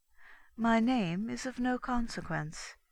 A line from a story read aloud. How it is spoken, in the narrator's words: she replied calmly